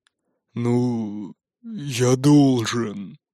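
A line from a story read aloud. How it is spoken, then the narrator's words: Mumbled. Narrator (Russian): пробормотал Нуки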